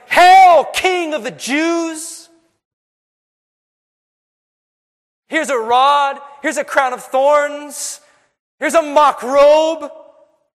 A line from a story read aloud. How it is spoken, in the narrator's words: sinful men shouting